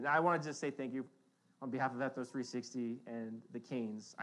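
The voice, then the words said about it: Emotional voice. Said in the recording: “since I'm all emotional right now”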